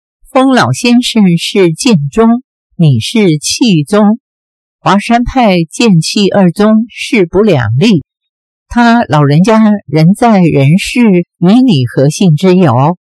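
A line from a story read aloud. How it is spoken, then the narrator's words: Sneering. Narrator (Chinese): 任我行冷笑道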